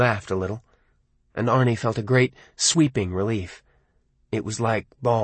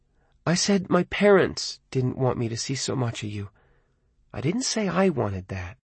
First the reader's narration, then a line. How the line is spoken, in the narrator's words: Lee said softly